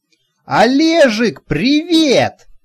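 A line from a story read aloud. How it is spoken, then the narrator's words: Yelled. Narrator (Russian): заорал он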